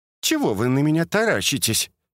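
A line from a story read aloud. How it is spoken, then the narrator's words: Cheerful yet angry question. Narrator (Russian): весело зло спросила Наталья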